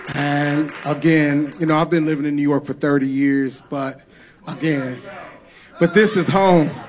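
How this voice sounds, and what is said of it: St. Louis accent. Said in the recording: “you still got an accent. And I hope that I never lose my St. Louis accent.”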